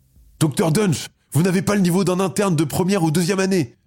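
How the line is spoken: Voice trembling with anger. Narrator (French): s'exclame-t-il, la voix tremblante de colère

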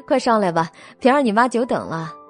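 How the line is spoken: Warm, smiling. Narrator (Chinese): 郑嫂笑容可掬的……对他们招手道

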